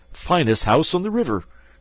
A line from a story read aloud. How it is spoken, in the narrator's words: cried Toad boisterously